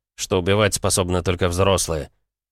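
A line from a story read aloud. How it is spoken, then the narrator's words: Offended snort. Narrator (Russian): фыркнул он, обидевшись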